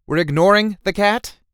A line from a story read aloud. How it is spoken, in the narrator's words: Bryce shouted